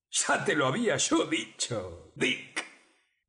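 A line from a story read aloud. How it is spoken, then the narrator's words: Exclaiming. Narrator (Spanish): exclamaba el cocinero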